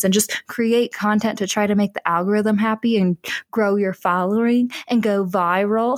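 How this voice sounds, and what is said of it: Weird put-on accent. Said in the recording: “adapting like a weird accent for that”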